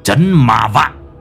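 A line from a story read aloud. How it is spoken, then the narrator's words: Harsh, growling. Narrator (Vietnamese): Lão Năm gằn giọng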